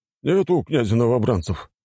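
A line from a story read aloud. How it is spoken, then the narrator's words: Snorting. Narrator (Russian): хмыкнул Пискарев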